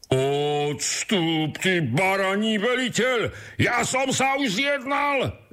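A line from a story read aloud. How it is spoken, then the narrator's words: Shouted again. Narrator (Slovak): vykríkol znovu ten prvý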